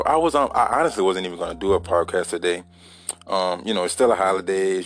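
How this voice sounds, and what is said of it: Weak, tired-sounding voice. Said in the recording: “my voice is a little weak”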